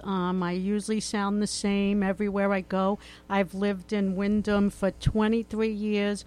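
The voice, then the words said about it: Regional accent. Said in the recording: “does your accent get thicker? ... I have not lost this accent”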